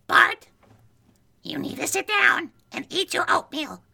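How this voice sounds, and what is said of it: Cartoon mother character voice impression. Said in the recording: “The next character I want you guys to portray is Marge Simpson from The Simpsons.”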